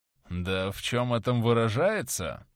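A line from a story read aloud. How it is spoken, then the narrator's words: Drawling. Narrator (Russian): протянул он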